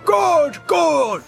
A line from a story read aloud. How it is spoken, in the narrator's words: cried Farmer Cotton